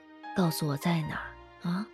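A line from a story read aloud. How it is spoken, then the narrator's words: Hoarse whisper. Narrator (Chinese): 哑着嗓子在他耳边低声问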